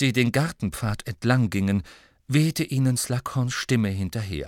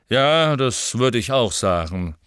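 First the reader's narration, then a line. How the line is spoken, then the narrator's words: Grumbling. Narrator (German): brummte Slughorn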